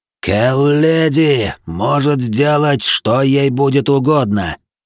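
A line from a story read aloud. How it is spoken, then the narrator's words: Wheezing, breathless. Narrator (Russian): прохрипел он, задыхаясь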